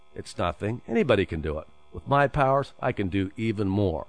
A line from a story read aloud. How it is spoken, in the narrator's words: chuckled, and said indifferently